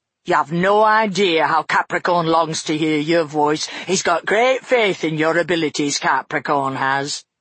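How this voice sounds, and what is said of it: Broad, coarse accented character voice. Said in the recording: “It had a broad, coarse accent.”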